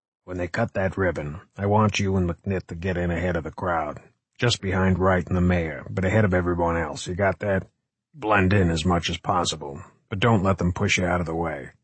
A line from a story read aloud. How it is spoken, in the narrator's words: he said in a low tone